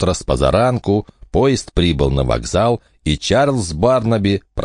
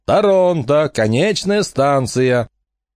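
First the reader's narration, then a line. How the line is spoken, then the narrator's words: Shouting conductor. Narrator (Russian): Кондуктор кричал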